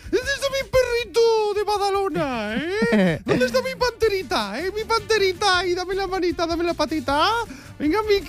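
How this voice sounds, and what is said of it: Baby talk voice to pet. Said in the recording (Spanish): “tratar a las mascotas con la voz de bebé ... ¿Ese es el tono?”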